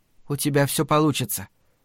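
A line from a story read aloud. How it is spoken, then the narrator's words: Whisper in ear. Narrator (Russian): шепнула ему на ухо Люси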